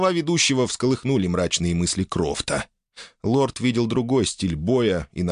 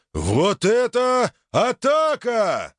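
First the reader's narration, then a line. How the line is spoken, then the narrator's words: Surprised yell. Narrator (Russian): завопил ведущий удивленно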